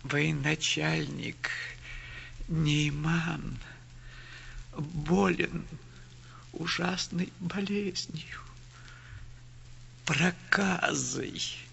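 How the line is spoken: Tearful woman. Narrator (Russian): ответила сквозь слезы бедная женщина

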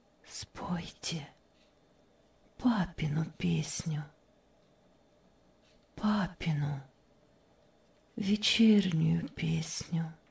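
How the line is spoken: Barely audible request. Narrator (Russian): Вдруг Мария чуть слышно попросила

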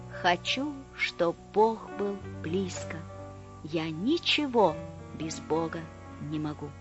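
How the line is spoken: Whisper. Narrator (Russian): Бамбук душой склонился низко-низко, склонился, как былинка на лугу, и прошептал

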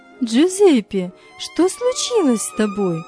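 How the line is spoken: Exclamation. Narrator (Russian): воскликнула Мария

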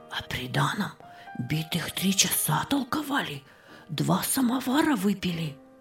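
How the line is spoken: Whispered addition. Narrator (Russian): прибавила она шепотом

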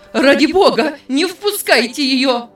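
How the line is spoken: Frantic scream. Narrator (Russian): закричала тетя Эллин

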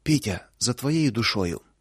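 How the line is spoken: Breathless exhale. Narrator (Russian): только и выдохнула Луша

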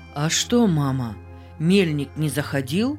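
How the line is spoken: Plain. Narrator (Russian): спросил, наконец, Павел

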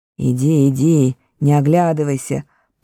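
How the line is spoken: Gnome grumbling. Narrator (Russian): проворчал гном

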